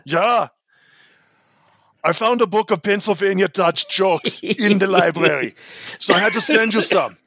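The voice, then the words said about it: Put-on German accent. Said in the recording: “Should I do my German accent for this?”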